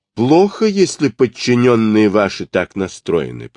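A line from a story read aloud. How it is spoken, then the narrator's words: Angry rumbling. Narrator (Russian): пророкотал он сердито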